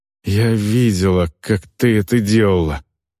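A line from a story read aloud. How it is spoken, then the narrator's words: Sighing. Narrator (Russian): вздохнула Эльвар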